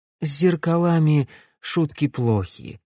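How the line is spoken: Calm reply. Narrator (Russian): спокойно ответила Маргарита

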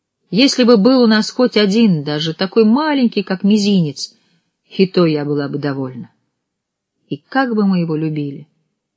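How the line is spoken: Woman's sighing reply. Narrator (Russian): ответила жена и вздохнула

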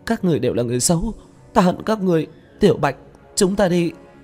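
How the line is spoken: Crying. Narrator (Vietnamese): Lôi Tú khóc lóc

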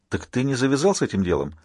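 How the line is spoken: Whisper exhaling smoke. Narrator (Russian): Альфа выдохнул дым и прошептал

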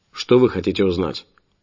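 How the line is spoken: Sharp. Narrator (Russian): продолжил я резко

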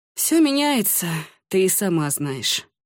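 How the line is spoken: Sighing. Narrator (Russian): вздохнул Ламинар

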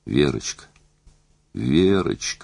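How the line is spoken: Breathless, unsure whisper. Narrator (Russian): шептал он, задыхаясь и неуверенно

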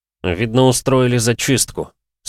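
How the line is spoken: Through gritted teeth. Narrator (Russian): сказал Антон сквозь зубы

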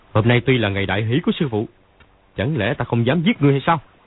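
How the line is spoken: Old man shouting. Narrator (Vietnamese): Lão quát

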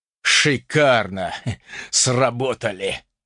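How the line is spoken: Breathless exhale. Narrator (Russian): выдохнул ультиматор

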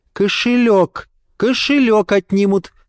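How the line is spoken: Joyful yet warning. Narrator (Russian): сказала мама радостным, но вместе с тем предостерегающим тоном

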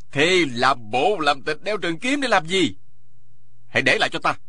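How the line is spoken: Shout. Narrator (Vietnamese): Dân Kỳ quát lên

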